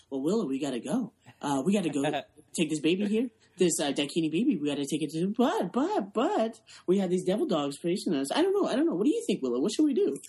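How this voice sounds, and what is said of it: Imitates another person's voice, rambling. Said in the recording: “he talks and he rambles ... That's my imitation.”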